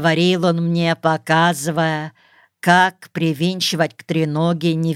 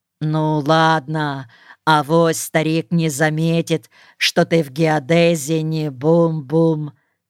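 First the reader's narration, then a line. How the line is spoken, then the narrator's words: Plain. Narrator (Russian): сказал он наконец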